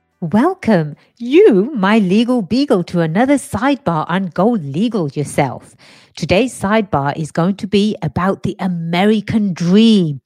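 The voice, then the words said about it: English accent. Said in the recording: “you, you, you might have detected a little bit of an accent ... born and raised in England”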